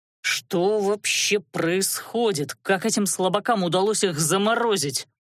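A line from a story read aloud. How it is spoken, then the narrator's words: Through gritted teeth. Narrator (Russian): процедил Велерат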